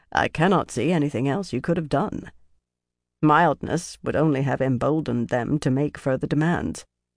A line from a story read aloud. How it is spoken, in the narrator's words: Norrie said in his dry voice